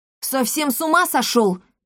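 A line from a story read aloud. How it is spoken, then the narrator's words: Shouting. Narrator (Russian): закричала Пулей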